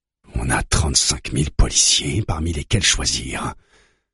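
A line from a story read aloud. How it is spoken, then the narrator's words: Murmured, leaning forward. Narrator (French): murmure Manvir en se penchant en avant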